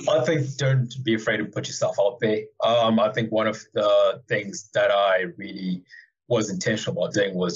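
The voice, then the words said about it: Zimbabwean accent. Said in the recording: “you have a different accent. Where are you from?... Zimbabwe”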